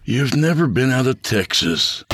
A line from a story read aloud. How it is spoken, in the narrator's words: Abel said with a sigh